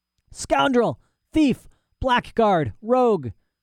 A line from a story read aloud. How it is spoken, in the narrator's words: shouted the old man, and he shook so violently